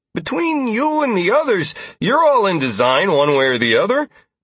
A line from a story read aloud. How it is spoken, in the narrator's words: Peter exclaimed